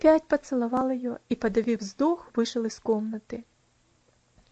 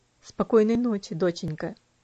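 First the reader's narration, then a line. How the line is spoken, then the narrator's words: Quiet, gentle. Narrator (Russian): тихо сказал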